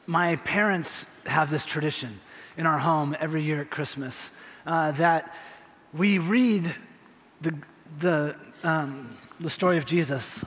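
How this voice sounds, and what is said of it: Choked-up, emotional, stumbling voice. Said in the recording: “I think I can make it through this without crying. ... I'm stumbling because I'm all choked up”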